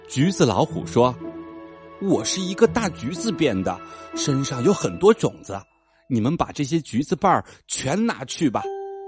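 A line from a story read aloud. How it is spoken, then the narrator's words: Old man sighing. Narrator (Chinese): 老爷爷叹口气说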